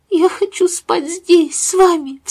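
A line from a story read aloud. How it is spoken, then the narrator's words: Sobbing. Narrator (Russian): всхлипнула Пенни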